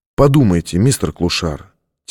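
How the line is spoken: Quiet but insistent. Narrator (Russian): тихо, но настойчиво сказал Бейкер

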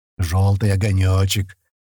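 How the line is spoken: Deep voice from behind. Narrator (Russian): пробасили за спиной

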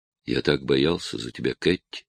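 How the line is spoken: Quiet young man. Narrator (Russian): тихо сказал юноша

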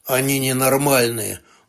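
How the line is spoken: Tired mutter. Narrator (Russian): устало буркнул Лайм

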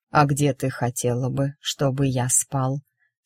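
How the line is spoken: Low velvety purring voice. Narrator (Russian): спросил Марк низким бархатным голосом, от мурлыкающих нот которого

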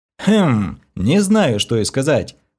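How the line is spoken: Wry snort. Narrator (Russian): хмыкнул я

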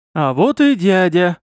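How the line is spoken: Happy. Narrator (Russian): радостно сказал я

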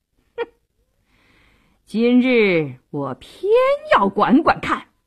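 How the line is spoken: Sneering, defiant. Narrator (Chinese): 杜世清一点也不示弱，冷笑一声

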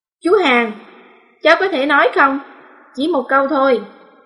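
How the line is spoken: Soft impatient speech. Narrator (Vietnamese): không nhịn nổi nữa, khẽ nói

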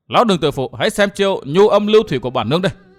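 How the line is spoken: Shaken woman shouting. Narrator (Vietnamese): trưởng túc mỹ nhân rúng động trong lòng thét

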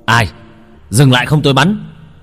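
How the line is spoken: Loud shout. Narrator (Vietnamese): Tiếng quát vang lên

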